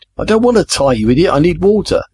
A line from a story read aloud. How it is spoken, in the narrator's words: Jamie shouted